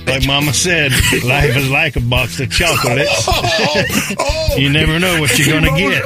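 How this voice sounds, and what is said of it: Forrest Gump character impression. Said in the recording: “my best Forrest Gump impression”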